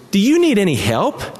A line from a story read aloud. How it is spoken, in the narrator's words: asked brightly